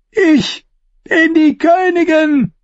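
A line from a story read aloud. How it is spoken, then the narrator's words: Calling out. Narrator (German): rief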